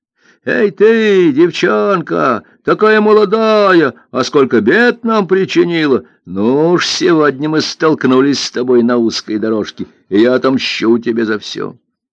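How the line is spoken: Big man yelling. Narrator (Russian): верзила заорал

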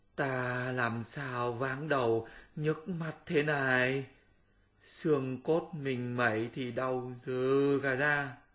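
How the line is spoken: Groaning. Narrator (Vietnamese): Tam Tạng rên rỉ nói

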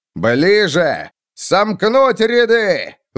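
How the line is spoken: Roar. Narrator (Russian): взревел фон Вольген

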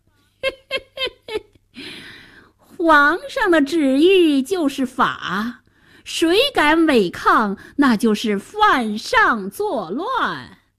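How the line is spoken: Sinister snicker. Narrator (Chinese): 白脸宰相奸笑着

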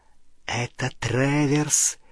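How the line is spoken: Goblin hissing in ear. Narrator (Russian): прошипел гоблин на ухо Гарри

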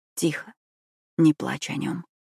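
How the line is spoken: Whispered. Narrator (Russian): прошептал он

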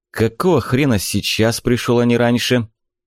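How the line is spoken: Angry. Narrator (Russian): Зло проговорил Попутин

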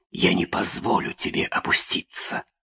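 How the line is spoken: Whispering in darkness. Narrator (Russian): она шептала в темноте

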